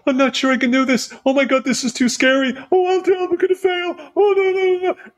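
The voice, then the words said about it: Jokingly mocking own anxious voice. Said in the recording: “impersonate yourself in that way ... jokingly have fun with yourself”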